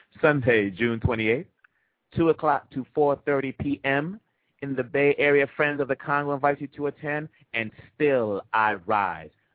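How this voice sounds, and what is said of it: Speaks with a noticeable foreign accent. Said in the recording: “my little accent gets in the way”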